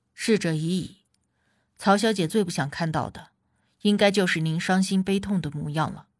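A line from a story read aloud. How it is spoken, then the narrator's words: Gentle consoling. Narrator (Chinese): 管家宽慰了他几句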